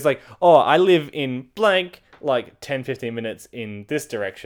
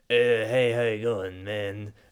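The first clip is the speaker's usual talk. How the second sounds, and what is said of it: Imitates another person's voice. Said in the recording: “I'm gonna stop doing the voice.”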